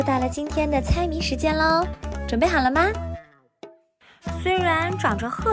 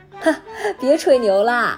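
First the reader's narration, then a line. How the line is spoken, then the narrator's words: Laughing scoffing. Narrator (Chinese): 阿虎就会哈哈大笑着说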